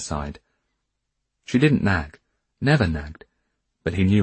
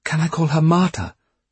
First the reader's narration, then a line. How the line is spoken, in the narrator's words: Rosa pleaded